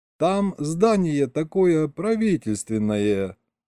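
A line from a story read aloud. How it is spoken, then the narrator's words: Drawling. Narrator (Russian): опять протянул Серега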